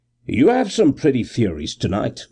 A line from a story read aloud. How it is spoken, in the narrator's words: I sneered